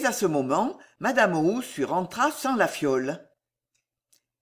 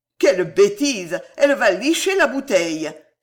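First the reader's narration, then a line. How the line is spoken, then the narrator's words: Exclamation. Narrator (French): s'écria Raphaël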